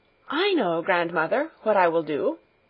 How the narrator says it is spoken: she said eagerly

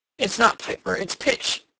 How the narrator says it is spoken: Edward grunted

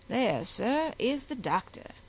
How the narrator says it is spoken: said the attendant of Henry, very coolly

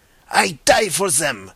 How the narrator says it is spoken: cried the Pole in thick excitement

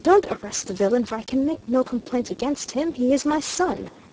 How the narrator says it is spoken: exclaimed

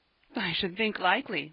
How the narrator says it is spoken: laughed Ben

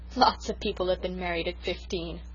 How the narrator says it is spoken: laughed the Story Girl

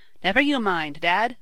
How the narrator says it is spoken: Tom exclaimed

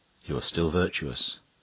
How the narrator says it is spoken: whispered

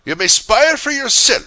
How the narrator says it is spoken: said the woman angrily

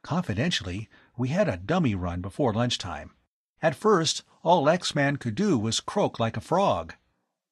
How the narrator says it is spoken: Tom whispered to Phil

